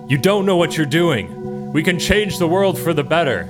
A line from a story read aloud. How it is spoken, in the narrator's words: Arrow yells out at her